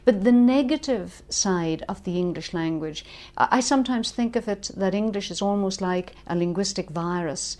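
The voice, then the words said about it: Irish accent. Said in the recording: “as you can probably hear from my accent, I come from Ireland”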